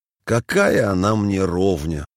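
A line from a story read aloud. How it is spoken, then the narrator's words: Sighing. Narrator (Russian): сказал вздохнувший Иосиф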